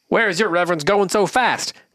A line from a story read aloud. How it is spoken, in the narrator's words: cried